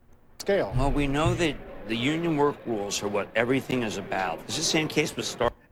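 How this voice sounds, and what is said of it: Subdued, quieter, lower voice. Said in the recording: “He's not yelling. ... He's chastened. He's a little lower down now.”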